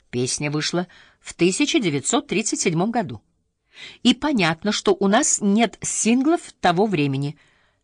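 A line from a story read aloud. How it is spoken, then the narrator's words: Very calm. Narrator (Russian): Я говорю все еще очень спокойно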